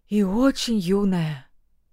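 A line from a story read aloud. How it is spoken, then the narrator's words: Frightened servant. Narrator (Russian): Слуга испуганно сглотнул и добавил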